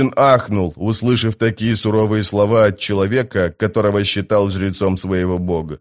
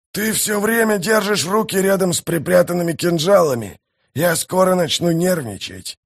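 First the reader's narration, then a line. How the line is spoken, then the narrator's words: Hoarse growl. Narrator (Russian): хрипло прорычал он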